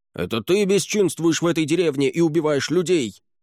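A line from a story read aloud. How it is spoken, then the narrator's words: Accusing shout. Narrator (Russian): закричал заклинатель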